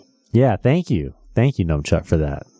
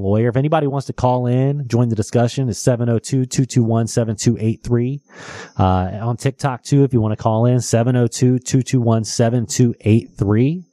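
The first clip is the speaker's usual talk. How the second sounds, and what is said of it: Radio announcer voice. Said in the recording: “I thought I was doing great in my radio voice”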